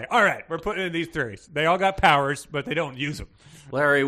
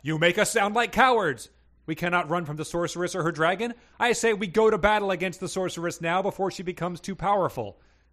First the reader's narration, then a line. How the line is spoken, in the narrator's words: The knight Victor yelled